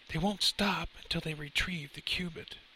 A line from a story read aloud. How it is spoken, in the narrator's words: whispered to the summer breeze, acknowledging some fact that apparently scared the living hell out of him